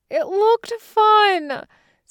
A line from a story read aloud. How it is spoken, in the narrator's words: Soon-young whines, the sound muffled by Ji-hoon's jumper